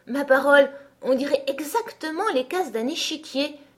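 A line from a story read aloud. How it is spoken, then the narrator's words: Exclaiming. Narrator (French): s'écria enfin Alice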